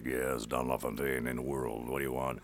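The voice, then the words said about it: Movie trailer announcer voice. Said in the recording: “the king of voice trailer guys. He was the guy that created In a World ... those guys actually sound that way”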